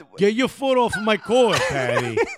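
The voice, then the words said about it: Put-on Staten Island accent. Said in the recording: “We're going to do it in the accent of every borough ... Staten Island.”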